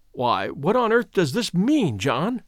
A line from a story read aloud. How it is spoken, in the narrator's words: he stammered